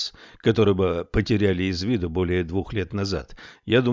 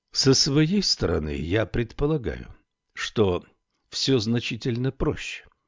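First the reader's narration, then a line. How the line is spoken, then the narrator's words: Calm. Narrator (Russian): спокойно заговорил адъютант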